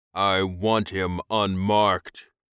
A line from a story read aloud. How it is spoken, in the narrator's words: growled